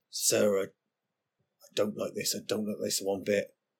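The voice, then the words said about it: Character voice with shifting accent. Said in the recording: “His ever-changing accent.”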